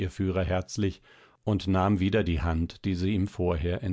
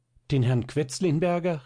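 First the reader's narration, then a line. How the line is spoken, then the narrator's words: Startled cry. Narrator (German): rief erschrocken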